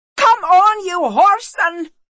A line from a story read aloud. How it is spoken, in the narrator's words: shouted Sigourney